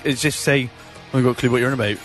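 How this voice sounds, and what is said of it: Put-on Bristol accent. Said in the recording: “That's a Bristol accent. ... Well, it's close. ... it's like, my accent”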